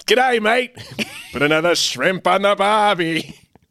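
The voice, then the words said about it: Put-on Australian accent. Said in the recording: “don't do an Australian accent. I know you're about to. We can't do it ... That's insulting.”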